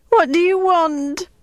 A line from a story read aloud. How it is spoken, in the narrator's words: Maud cried